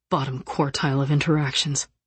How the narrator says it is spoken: he muttered under his breath

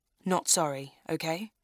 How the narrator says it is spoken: I smile shakily

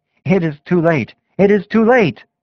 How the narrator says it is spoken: Judas saw that his entreaties were in vain, and he rushed from the hall exclaiming

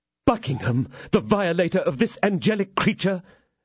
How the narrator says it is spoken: exclaimed Felton

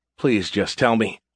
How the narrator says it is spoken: Covering my face with my hands, I mumbled

